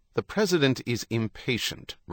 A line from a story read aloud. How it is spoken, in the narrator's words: Ruckerman said